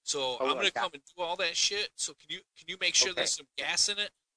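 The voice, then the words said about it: Put-on Black American accent. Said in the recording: “So that's my black guy accent.”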